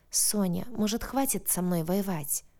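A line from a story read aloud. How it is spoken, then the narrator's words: Weary question. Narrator (Russian): устало спросил Дрейк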